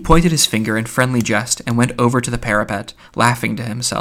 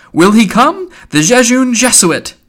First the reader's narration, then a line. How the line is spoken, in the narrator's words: laughing with delight, cried